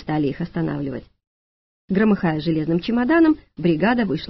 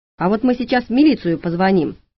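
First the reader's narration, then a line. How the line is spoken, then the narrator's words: Paramedic's bark. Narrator (Russian): рявкнул фельдшер, по виду чуть старше Маруси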